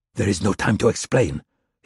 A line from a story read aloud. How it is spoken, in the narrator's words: said in a harsh whisper